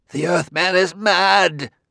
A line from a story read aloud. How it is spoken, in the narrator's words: cried Liebig